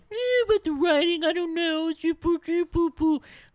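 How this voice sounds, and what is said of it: Mocking impersonation of a dismissive critic. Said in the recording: “That's my impersonation. ... That was the most adorable bad customer out there.”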